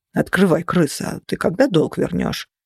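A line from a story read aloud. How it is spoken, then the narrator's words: Hoarse, very polite, trustworthy. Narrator (Russian): Раздался очень вежливый и внушающий безграничное доверие хриплый голос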